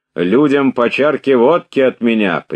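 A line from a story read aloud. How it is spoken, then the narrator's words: Loud, for soldiers to hear. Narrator (Russian): прибавил он громко, чтоб солдаты слышали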